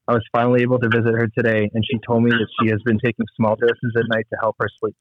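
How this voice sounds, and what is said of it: Emotional, choked-up voice while reading. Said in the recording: “I don't know if you can hear it in my voice. I'm just I get emotional every time I read that”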